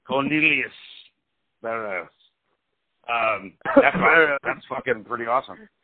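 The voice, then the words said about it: Put-on British accent. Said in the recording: “Your British accent coming out.”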